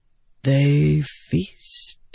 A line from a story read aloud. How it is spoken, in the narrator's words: Wit said softly